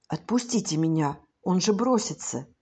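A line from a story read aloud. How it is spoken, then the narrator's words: Boy's hurried whisper. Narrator (Russian): Мальчик торопливым шепотом сказал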